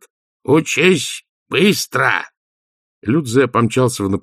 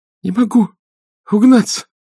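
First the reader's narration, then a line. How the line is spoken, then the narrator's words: Breathless while hurrying. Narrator (Russian): выдохнул он, спеша за учителем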